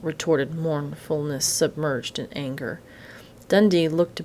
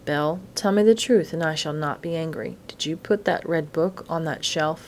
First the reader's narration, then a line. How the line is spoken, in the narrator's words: Dundee asked, his voice steady and kindly in spite of his excitement